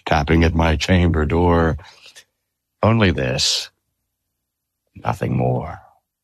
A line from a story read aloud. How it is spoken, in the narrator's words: I muttered